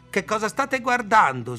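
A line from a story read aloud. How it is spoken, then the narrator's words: Angry outburst. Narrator (Italian): sbottò mio padre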